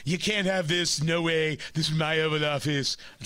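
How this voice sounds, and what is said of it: Imitates another person's voice. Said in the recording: “terrible impression. It was the best I can do.”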